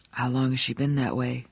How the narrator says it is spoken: Johnny asked quietly

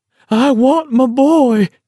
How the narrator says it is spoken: she hollered

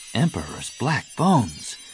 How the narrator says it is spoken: Jaina breathed

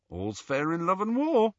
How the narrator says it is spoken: said Ron brightly

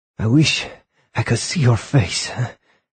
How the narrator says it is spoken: he gasped to Polyakov as he put all his weight against the sliding door handle

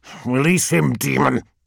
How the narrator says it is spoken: snarled Argonus

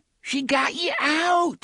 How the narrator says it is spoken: Shimi cried

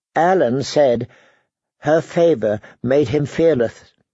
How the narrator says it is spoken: said Megha

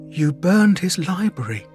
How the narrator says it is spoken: Adric muttered to himself

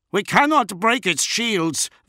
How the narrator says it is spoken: Van Aunger yelled back

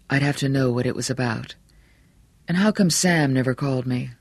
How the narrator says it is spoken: Bannerman sighed

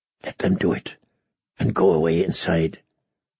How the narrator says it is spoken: he heard himself whisper

